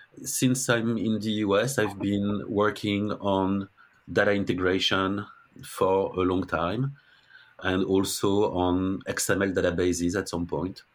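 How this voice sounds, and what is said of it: French-accented English. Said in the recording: “I'm French ... Still have my French accent, so that's probably never going to go away.”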